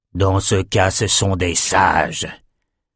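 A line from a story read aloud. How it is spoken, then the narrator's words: Disappointed grumble. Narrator (French): grogna Calvert, déçu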